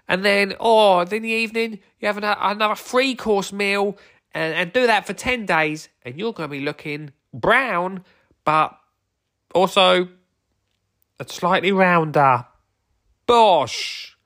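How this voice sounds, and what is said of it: Imitates another person's voice. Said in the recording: “My impression of Joe Wicks there.”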